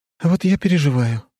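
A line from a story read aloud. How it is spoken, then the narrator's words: Sigh. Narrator (Russian): вздохнула Василиса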